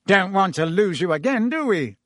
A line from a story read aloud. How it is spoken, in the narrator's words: said Fudge, with a hearty laugh